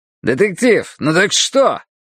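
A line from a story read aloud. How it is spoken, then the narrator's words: Loud bark. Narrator (Russian): гаркнул Хардвик на всю комнату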